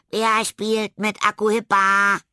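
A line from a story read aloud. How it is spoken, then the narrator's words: Shrieking. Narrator (German): kreischte Tilda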